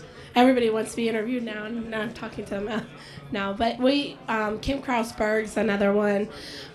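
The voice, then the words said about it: Strained, fading voice. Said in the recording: “I'm losing my voice here. It's you know, talking too much.”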